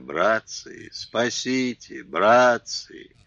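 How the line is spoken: Hoarse strained moaning. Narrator (Russian): Слышалось стонущее, трудное, хриплое

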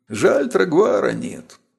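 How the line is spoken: Sudden sigh. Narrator (Russian): вдруг вздохнул Фалдан

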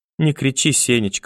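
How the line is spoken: Timid grandmother plea. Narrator (Russian): робко попросила бабушка

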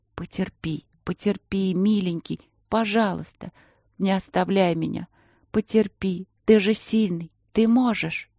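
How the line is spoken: Pleading, demanding whisper. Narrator (Russian): И Полина шепотом просила, требовала

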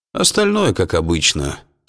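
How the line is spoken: Bored voice. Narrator (Russian): скучным голосом сообщил Ларри

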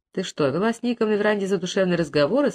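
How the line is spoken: Plain. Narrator (Russian): спросил друг Том

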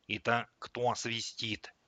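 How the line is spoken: Whispered question. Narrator (Russian): шепотом спросил Андрюша

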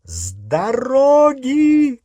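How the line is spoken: Shout. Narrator (Russian): крикнула миссис Уизли

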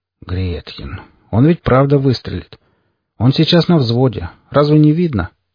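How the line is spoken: Calm voice. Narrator (Russian): спокойным голосом произнес Форд

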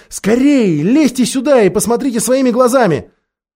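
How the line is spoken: Shouted. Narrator (Russian): крикнула

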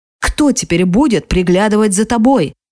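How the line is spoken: Angry question, father. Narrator (Russian): сердито спрашивает отец

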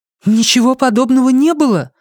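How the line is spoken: Exclamation. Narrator (Russian): воскликнула

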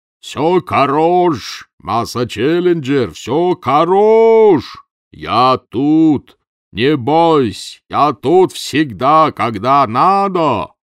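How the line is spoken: Shout. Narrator (Russian): кричал

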